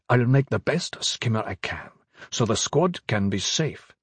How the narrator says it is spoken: Ben-Hadad was trying to keep his temper, saying tightly

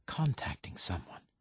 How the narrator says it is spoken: he whispers

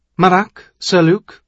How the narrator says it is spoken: Her voice was sharp, clipped

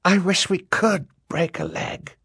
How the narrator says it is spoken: Klaus whispered to Violet

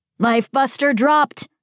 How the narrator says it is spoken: Terrier shouted

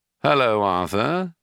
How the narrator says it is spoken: said the shadow

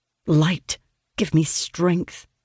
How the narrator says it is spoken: I mutter to myself

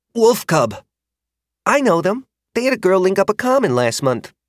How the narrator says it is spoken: he blurted out

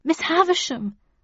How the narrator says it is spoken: I pleaded

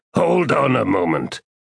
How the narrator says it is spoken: growled the Trell

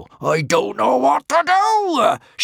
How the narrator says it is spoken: shrieked Norbert the Nutjob

